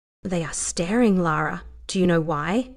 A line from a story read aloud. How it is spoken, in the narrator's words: Price asked as he leaned in to whisper in her ear